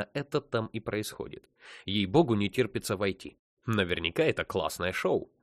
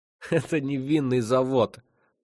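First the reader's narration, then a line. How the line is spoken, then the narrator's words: Gloating giggle. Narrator (Russian): так хихикнул со злорадством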